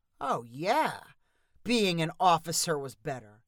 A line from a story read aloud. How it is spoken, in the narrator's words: answered Mitch with a chuckle